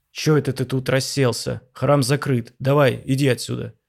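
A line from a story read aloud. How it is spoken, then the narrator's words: Angry, muffled through beard. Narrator (Russian): Донесло сердито из-под длинной черной с бороды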